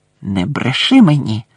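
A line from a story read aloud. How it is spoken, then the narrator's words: Hissed. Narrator (Ukrainian): прошипів Снейп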